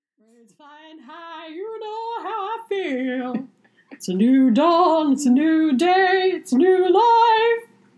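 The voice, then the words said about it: Imitates another person's singing voice. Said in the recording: “my Nina Simone impression. I can't really do her. She's got obviously such a unique voice.”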